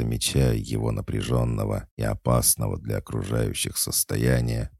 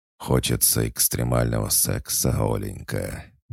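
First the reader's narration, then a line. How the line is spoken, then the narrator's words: Menacing hiss through tight lips. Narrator (Russian): недобро прошипел, едва размыкая губы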